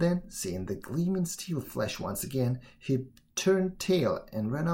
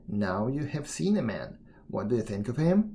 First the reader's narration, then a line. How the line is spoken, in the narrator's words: Brun answered sadly